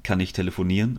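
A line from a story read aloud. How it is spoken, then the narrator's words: Calling out. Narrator (German): rief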